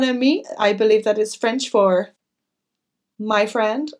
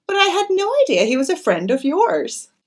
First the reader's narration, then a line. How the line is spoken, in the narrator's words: said Cynthia gaily